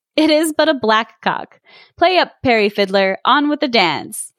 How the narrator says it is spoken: one of the sprites called out in a laughing voice

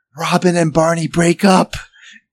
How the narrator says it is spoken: whispers

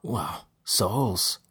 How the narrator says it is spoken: Dellum said, his voice low and his disgust clear

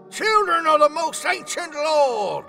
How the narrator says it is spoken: he boomed lovingly, tears streaming down his cheeks

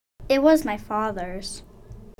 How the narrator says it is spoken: she sighed

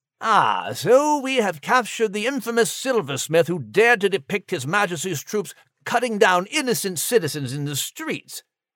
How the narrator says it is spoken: Major Mitchell spat

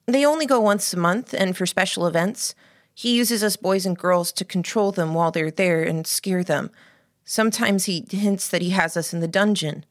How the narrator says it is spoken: said

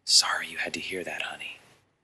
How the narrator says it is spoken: whispering in her ear

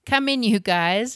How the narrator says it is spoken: laughed Mum

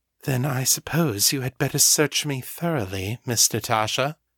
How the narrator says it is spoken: the girl said huskily

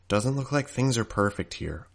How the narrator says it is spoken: I muttered

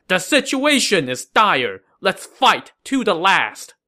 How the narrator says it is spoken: Wang Guan then shouted to his men

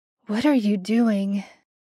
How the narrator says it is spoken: Sam's voice was clear over the sound of falling water, and only a rasp of breath

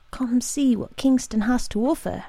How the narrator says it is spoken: I whispered it in her ear

